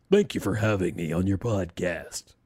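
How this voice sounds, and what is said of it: Put-on podcast voice. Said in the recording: “I've got a great voice. So, but that's not the voice. ... It's my podcast voice.”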